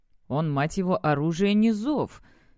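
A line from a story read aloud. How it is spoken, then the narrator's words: Muttered repeatedly. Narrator (Russian): не меньше дюжины раз пробормотал Дрик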